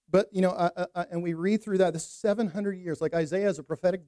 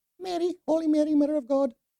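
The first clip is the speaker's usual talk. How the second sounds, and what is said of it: Poor put-on Scottish accent. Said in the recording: “my little wannabe Scottish accent ... That's horrible. That was horrible.”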